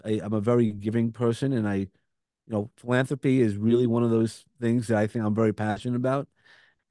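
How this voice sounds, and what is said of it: Brooklyn accent. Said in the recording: “I have a Brooklyn accent ... you're going to hear the Brooklyn accent”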